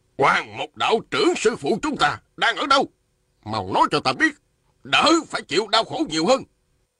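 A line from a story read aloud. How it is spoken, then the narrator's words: Man shouting. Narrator (Vietnamese): Một đạo nhân râu dài quát lên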